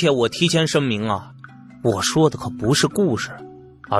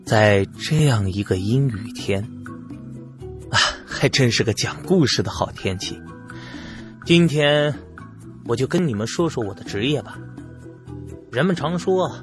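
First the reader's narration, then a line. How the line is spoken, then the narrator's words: Low, slow voice. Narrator (Chinese): 清了清嗓子，声音低沉且缓慢的对他们说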